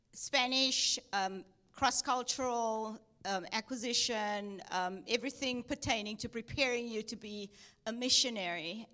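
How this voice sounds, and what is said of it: South African accent with Texan touches. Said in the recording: “that's why I have an accent, because I was born in South Africa... I lived in Texas for a while, so I do say y'all a lot... that's where the Texas comes in”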